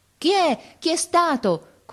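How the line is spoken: Crowd shouting repeatedly. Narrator (Italian): continuava a gridare la gente

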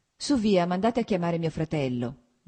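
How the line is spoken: Plain. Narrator (Italian): disse

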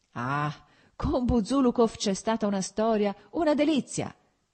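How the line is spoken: Shouting. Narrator (Italian): gridò Petrichki

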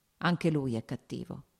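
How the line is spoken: Plain. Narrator (Italian): disse

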